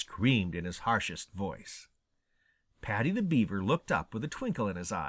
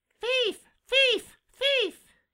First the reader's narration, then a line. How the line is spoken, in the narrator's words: screamed Sammy, he was so angry